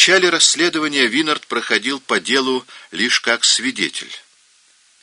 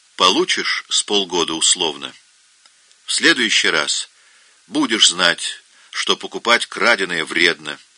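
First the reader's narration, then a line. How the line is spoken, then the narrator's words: Plain. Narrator (Russian): сказал ему следователь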